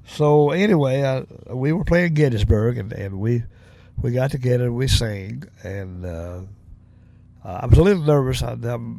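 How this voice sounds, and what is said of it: Southern US accent. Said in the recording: “I'm from the South, from Tennessee. I definitely got a Southern dialect, you know, as far as my accent.”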